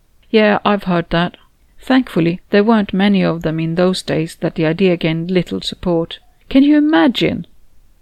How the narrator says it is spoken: Anna exclaimed

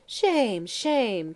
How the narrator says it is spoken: cried Dorothy Kinnear, and the others echoed the reproach

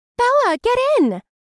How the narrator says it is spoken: I heard Agatha shouting happily

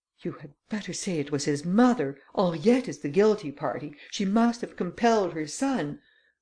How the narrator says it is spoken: the Countess exclaimed

